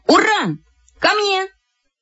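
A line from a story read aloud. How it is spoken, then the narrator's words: Shouted. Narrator (Russian): И как крикну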